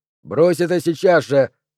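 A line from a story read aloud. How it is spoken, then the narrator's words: Loud. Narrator (Russian): громко сказал Натли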